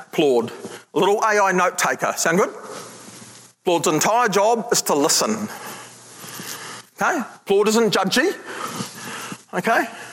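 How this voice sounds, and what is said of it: New Zealand accent. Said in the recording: “here's my Kiwi accent”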